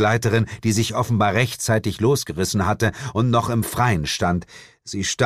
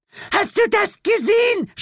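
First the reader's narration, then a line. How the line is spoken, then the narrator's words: Old lady shouting. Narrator (German): schrie eine der alten Damen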